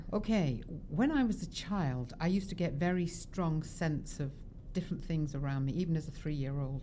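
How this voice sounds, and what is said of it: London English accent. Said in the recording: “in town from London ... By my accent. ... hear her amazing accent”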